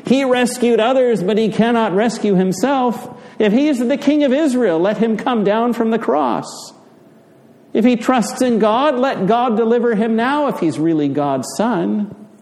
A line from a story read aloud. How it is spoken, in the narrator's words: the chief priests and scribes mocked him, shouting